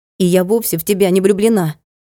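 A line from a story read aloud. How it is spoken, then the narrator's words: Declared angrily. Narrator (Russian): зло заявила она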